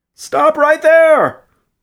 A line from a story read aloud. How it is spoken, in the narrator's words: Morgan shouted